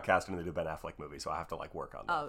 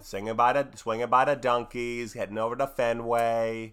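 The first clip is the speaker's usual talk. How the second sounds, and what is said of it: Put-on Boston accent. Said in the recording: “You're doing Boston. ... Oh, I'm doing Boston. ... make fun of the Boston accent.”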